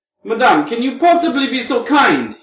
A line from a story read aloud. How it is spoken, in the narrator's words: He cried with extreme feeling